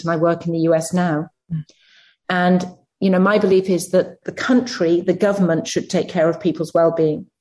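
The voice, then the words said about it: British accent. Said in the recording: “I come from the UK, as you can probably tell by my accent”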